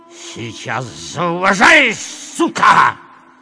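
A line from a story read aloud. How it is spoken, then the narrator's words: Hissed. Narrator (Russian): прошипел он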